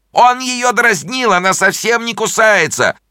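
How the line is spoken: Little dog crying out. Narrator (Russian): кричала собачка

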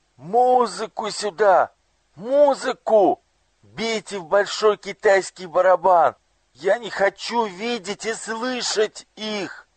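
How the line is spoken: Anguished, frightened shout. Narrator (Russian): Ему стало так тяжело, так страшно, что он закричал

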